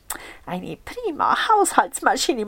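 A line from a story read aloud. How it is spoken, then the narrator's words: Murmur. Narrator (German): murmelte sie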